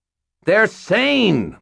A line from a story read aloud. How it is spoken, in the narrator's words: Mort shouted back